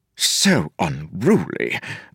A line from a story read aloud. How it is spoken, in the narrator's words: Vendel muttered